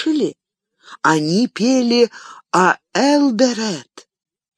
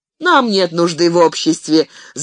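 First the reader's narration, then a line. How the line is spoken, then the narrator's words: Several voices laughing. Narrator (Russian): засмеялось в ответ сразу несколько голосов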